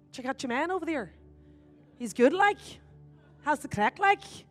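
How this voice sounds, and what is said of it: Put-on Irish accent. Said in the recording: “he was saying he had a great Irish accent ... when I'm in Ireland”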